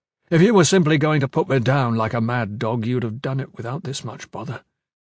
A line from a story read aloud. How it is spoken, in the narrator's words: Gavin said